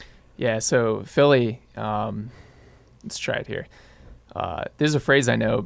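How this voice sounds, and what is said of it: Usual voice. Nothing is said of it.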